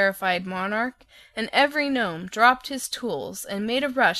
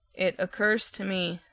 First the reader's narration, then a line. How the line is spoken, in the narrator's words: said Tick-Tock calmly